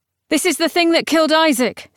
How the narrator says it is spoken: said Gideon urgently

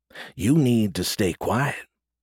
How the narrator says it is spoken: Tran whispered

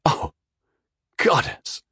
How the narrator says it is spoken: whispered

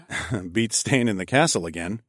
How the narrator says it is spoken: I chuckled

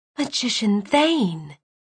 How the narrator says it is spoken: whispered

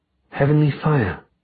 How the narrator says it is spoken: she whispered

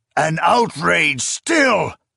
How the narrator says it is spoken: the emperor roared

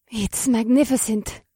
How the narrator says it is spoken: Morgana gasped

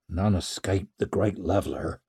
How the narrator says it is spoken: muttered Ricker's father

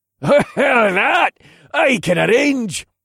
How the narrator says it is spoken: the man laughed

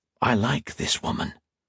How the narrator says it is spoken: Octavia whispered to Modo

